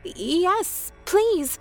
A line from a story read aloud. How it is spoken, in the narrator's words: I stuttered